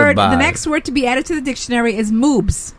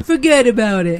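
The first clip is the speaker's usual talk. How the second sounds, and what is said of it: Weak put-on Brooklyn accent. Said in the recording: “the way people pronounce it who live in Brooklyn ... That's not really a great accent ... you're doing there.”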